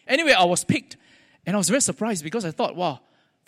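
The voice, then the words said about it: Singaporean English accent. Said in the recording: “my Singlish, or at least my accent, they cannot understand”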